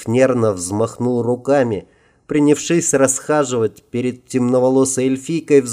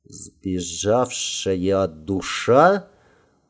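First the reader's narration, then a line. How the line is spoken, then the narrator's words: Thoughtful drawl. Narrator (Russian): протянула задумчиво темноволосая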